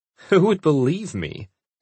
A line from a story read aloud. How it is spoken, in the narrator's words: Anita laughed